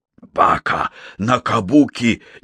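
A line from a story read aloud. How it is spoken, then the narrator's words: Indignant exclamation. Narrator (Russian): негодующе воскликнул Такеда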